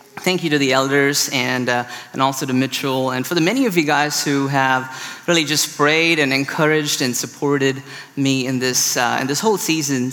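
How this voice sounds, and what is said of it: Indian-accented English. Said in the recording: “my weird accent ... I'm from India originally”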